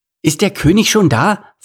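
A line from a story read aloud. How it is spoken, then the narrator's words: Excited question. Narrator (German): fragte Ede aufgeregt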